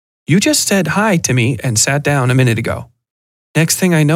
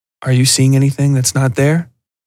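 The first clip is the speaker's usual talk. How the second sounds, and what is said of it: Softer, quieter voice. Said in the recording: “in a softer voice”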